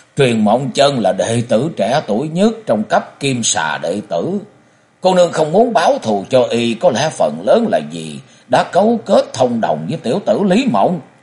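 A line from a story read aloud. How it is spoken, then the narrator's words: Loud laughing. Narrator (Vietnamese): Cổ Du ha hả cười lớn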